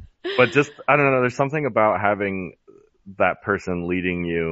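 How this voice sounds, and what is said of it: Usual voice. Nothing is said of it.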